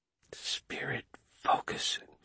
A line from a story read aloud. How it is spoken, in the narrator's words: she whispered